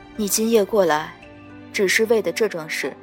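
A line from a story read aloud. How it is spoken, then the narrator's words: Calm after slight hesitation. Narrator (Chinese): 他微怔了怔，才淡淡道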